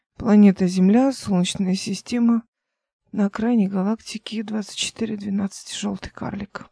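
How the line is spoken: Muttering. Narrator (Russian): пробормотала Эл

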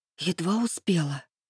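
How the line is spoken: Whispered. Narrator (Russian): прошептала она

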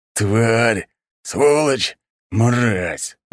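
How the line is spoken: Growling through clenched teeth. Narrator (Russian): рычал, сжав зубы мужчина

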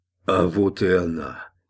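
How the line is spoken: Hoarse croak. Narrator (Russian): Человек, работавший рядом с Гроссвенфом, прохрипел

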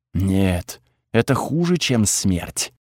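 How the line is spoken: Whisper. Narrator (Russian): шепот Тхаги

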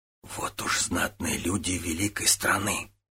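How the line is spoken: Whispered. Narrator (Russian): шепнул Тан Ао До Цзюгуну

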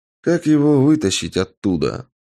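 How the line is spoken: Asked with heavy sigh. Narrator (Russian): спросил я, тяжело вздохнув

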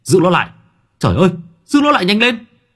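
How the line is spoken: Panicked shout. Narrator (Vietnamese): Tôi hét lên

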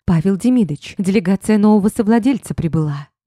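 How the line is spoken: Frightened rapid chatter. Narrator (Russian): Испуганно затараторила она

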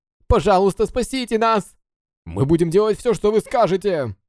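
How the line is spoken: Frantic sailors shouting. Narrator (Russian): Кричали обезумевшие моряки

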